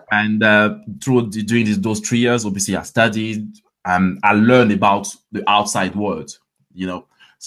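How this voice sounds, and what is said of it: French accent. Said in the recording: “That's why I've got the French accent.”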